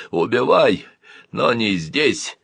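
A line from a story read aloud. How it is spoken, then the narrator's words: Grim. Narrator (Russian): мрачно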